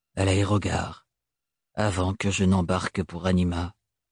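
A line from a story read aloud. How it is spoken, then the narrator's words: Calm, composed voice. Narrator (French): répondit Thorne d'une voix posée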